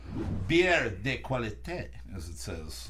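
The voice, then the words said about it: Put-on French accent. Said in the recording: “That's my French accent, if you couldn't tell by the perfect pronunciation.”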